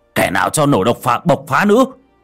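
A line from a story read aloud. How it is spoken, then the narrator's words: Old man shouting. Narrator (Vietnamese): Ông Khôi thấy vậy thì hét lên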